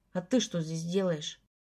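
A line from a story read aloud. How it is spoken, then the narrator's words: Grim question. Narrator (Russian): мрачно спросил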